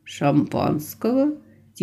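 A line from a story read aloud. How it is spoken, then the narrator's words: Quiet question. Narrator (Russian): Тихо поинтересовался Алекс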